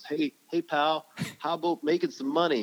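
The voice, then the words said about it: Bad put-on Canadian accent. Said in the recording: “my worst Canadian accent ever”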